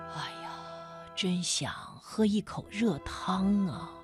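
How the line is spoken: Old man mumbling. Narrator (Chinese): 老爷爷……嘟囔着说

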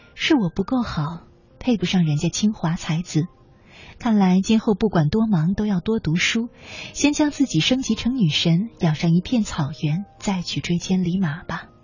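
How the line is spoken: Resigned sigh. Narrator (Chinese): 带着无奈和不甘，叹了一口气

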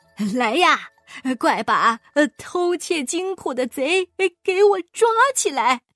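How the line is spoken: Loud command. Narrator (Chinese): 国库管理大臣大声地说

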